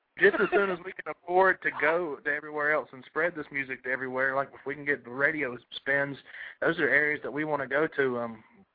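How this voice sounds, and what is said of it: Deep North Carolina accent. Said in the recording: “Y'all got that accent deep, but you can never tell that you guys are from North Carolina ... y'all accent is deep”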